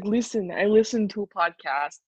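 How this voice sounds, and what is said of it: Put-on Russian-sounding accent. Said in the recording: “a Russian accent instead of a Finnish accent”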